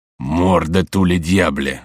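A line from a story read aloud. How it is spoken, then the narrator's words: Exclaimed. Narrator (Russian): воскликнул Карл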